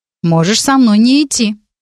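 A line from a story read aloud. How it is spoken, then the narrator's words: Curt angry retort. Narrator (Russian): сердито бросила через плечо Маринка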